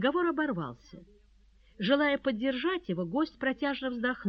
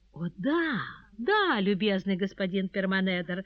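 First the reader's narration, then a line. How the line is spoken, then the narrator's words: Joyful agreement. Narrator (Russian): радостно подтвердила она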